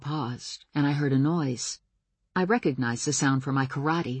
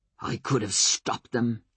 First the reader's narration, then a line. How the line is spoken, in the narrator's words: said in a guttural voice